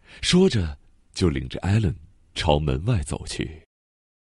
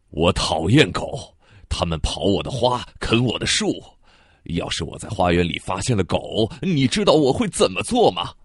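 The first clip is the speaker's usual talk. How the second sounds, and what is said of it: Roaring, angry shouting voice. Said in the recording (Chinese): “他用怒吼般的声音说”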